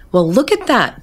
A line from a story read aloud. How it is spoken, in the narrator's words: exclaimed